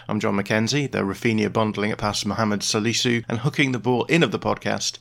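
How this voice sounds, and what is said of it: Croaky voice. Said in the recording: “just how croaky my voice is this morning”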